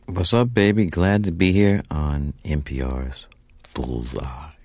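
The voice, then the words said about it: Rich put-on radio voice. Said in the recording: “I'm giving you my radio voice. ... You sound good. You sound good. ... we'll get it even richer.”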